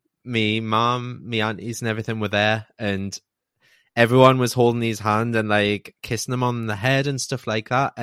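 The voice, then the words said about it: Choked-up, emotional voice. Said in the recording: “I'm getting choked up here”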